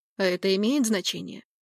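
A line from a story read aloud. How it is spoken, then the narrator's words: Curt, then softening. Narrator (Russian): Грубо отрезал он, но тут же смягчился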